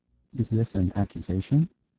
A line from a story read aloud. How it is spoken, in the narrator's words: asked Calon, very quietly